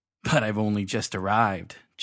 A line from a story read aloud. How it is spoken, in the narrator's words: chuckled Dugdame